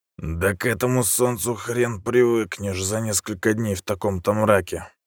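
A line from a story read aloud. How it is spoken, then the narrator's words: Displeased grumble. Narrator (Russian): недовольно пробурчал он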